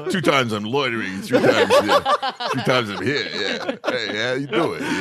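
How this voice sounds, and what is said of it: Imitates another person's voice. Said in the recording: “If only Sylvester Stallone was here ... Sly.”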